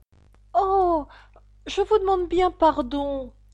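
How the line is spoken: Flustered exclamation. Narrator (French): s'écria-t-elle toute confuse

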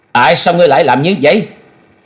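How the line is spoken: Loud shout. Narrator (Vietnamese): Thôi Dân, y quát lớn

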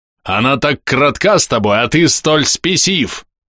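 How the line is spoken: Furious roar. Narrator (Russian): Взревевший Некроз

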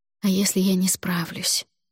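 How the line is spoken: Whispered. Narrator (Russian): прошептала я

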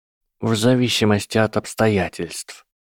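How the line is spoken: Quiet elderly reply. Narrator (Russian): тихо ответил старый волшебник

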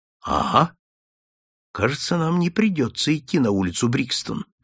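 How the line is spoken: Whisper. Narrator (Russian): шепнул Холмс

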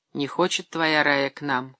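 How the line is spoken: Sighing mother. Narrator (Russian): вздохнула мать

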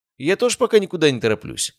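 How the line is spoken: Snorting. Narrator (Russian): хмыкнул я

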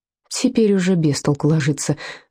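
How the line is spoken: Sighed. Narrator (Russian): вздохнул Вольфганг

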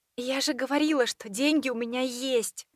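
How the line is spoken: Weak voice. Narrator (Russian): Напомнила я слабым голосом

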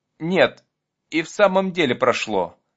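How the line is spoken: Relieved sigh. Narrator (Russian): облегченно вздохнул Вася

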